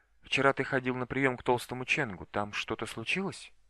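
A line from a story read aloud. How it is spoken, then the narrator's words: Quiet question. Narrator (Russian): Джао Сюйцин тихо спросила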